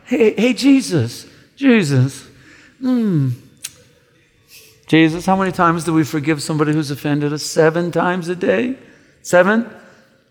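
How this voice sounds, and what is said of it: Pious, proper-sounding put-on accent. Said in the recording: “some pious guy with a proper accent”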